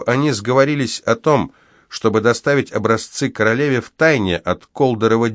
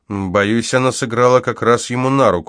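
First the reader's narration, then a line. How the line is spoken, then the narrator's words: Grim reply. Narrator (Russian): мрачно ответил я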